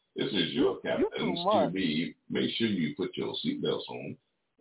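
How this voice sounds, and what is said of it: Airline captain announcement voice. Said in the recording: “that captain impression of, you know, the pilot of this airplane”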